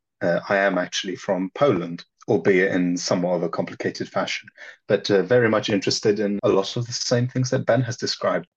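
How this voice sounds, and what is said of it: Accent that does not sound Polish. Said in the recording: “despite this accent, which will probably confound most of the listeners”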